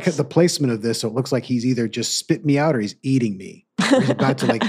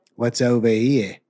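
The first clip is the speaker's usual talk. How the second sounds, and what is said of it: Put-on New Zealand accent. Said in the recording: “That's a pretty good New Zealand accent right there”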